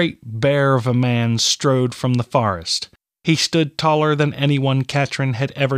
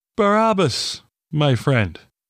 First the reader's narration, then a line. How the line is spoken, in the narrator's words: Brother Vaughn said through a stifled yawn